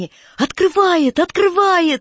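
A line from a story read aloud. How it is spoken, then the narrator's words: Sudden joyful squeal, boy. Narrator (Russian): вдруг радостно взвизгнул курносый Гриша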